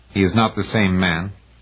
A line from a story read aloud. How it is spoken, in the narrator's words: Garabedian said